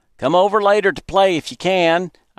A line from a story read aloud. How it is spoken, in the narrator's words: I shouted to him